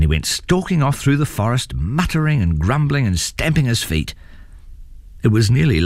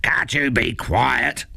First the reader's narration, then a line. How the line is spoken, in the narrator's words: growled his father